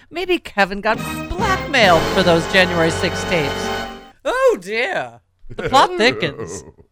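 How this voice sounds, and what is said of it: Fancy, gossipy put-on accent. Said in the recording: “Why are we talking in that annoying accent? ... it's so gossipy. ... So fancy.”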